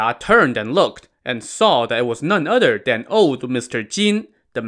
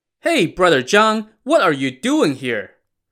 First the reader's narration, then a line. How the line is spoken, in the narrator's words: someone behind him called out